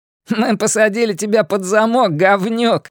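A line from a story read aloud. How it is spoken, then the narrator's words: Laughing voice. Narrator (Russian): рассмеялся еще один голос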